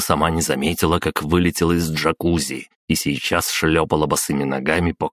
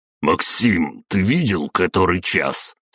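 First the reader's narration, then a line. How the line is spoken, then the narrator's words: Sleepy mumble. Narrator (Russian): сквозь сон пробурчал Игнатов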